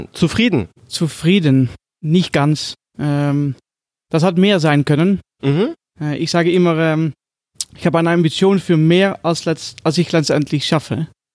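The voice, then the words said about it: Dutch accent speaking German. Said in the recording (German): “was hat der ... für einen komischen Dialekt? ... Ich bin Holländer.”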